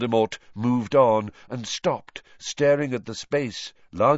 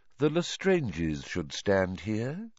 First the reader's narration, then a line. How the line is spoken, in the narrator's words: said Voldemort quietly